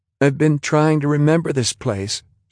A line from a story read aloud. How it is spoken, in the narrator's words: she said, almost plaintively